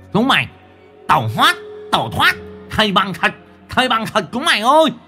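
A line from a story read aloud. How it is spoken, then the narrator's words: Loud commanding voice. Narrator (Vietnamese): Nó lớn tiếng ra lệnh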